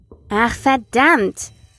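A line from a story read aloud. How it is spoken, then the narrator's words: Frustrated exclamation. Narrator (German): rief Marcus frustriert aus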